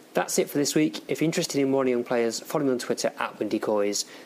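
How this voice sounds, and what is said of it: Radio presenter style voice. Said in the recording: “I did a bit of a radio voice then, didn't I?”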